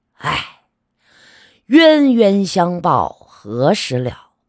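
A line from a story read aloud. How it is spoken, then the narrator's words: Sighing. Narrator (Chinese): 他叹息道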